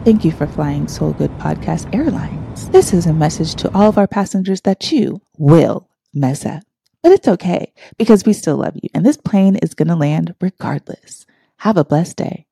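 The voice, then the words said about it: Sweet flight attendant announcement voice. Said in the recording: “in my nice voice. ... in like my flight attendant voice”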